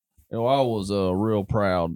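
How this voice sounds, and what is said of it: Poor imitation of another person's voice. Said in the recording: “hearing him say that in the Elvis voice ... that's a terrible Elvis impersonation ... Wow, that was bad”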